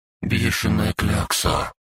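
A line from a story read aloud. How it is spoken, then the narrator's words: Little dragon mumbling. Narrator (Russian): пробормотал дракоша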